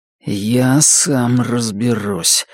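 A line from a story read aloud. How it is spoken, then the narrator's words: Low, grim voice. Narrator (Russian): сказал Норрис низким и мрачным голосом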